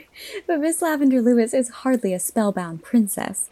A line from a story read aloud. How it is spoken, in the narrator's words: laughed Diana